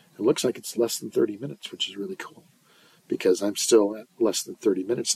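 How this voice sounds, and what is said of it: Hoarse, fading voice from illness. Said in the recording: “I'm losing my voice ... I've been sick all week ... I still don't have a voice”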